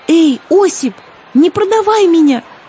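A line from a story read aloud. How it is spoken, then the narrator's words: Pleading. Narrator (Russian): взмолилась Злата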